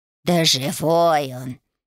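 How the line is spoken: Grumbled. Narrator (Russian): проворчал Лютик

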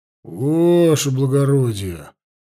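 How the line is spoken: Drawn-out, emphatic. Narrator (Russian): протянул с нажимом Лужин

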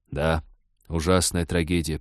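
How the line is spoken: Mournful mutter. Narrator (Russian): пробормотал капитан, потупившись, словно в знак скорби

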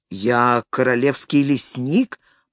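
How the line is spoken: Deep bass voice. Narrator (Russian): пробасил незнакомец

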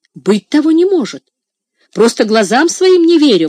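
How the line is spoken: Exclaimed. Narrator (Russian): воскликнул кузнец

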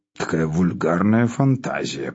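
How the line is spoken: Muttering. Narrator (Russian): пробормотал Спиридон

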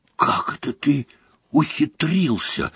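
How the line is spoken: Whispered question. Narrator (Russian): шепотом спросил он у Гарри

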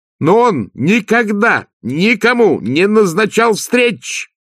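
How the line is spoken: Much louder shout. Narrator (Russian): крикнула Агнесса гораздо громче

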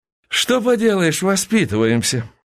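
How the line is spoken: Playful sigh. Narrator (Russian): вздохнул Константин дурашливо

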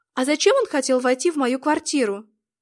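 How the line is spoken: Nervous exclamation. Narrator (Russian): нервно воскликнула Шерил

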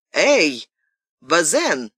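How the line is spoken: Shouted. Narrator (Russian): закричал он

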